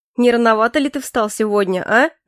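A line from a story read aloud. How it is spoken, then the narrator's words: Mocking question. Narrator (Russian): насмешливо спросил Де Йон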